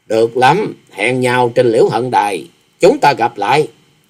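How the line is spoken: Cold woman's voice. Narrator (Vietnamese): Bằng một giọng lạnh lùng bà thốt

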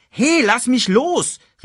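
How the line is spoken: Calling out. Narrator (German): rief Simba

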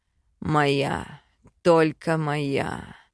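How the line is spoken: Growling. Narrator (Russian): рычал он

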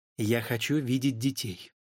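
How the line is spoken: Unexpectedly firm. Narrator (Russian): отозвалась жена неожиданно твердым тоном

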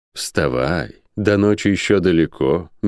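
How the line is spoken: Soft wanderer's voice. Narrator (Russian): мягко сказал странник

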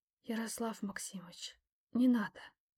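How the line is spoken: Mother's strained whisper. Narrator (Russian): шепотом выдавила из себя мама

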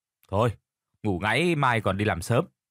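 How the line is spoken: Irritated, clenched voice. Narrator (Vietnamese): Biết là mình đang bị cả đám đá xéo, gã Toàn gằn giọng

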